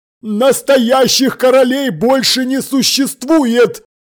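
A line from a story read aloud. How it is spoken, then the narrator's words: Harsh bark. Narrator (Russian): рявкнул верховный старший наставник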